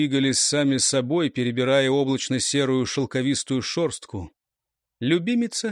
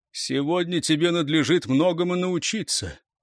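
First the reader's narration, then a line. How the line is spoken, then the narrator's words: Sighing, suppressed sadness. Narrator (Russian): Эрелис вздохнул, давя темную тоску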